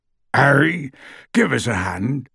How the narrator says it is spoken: called Hagrid hoarsely from the door

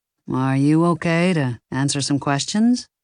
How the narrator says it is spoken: He asked in a soothing, low voice

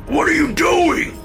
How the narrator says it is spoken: Dad screamed

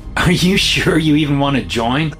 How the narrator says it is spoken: I laugh

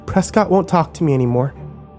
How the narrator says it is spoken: she said more calmly this time as she tried to compose herself

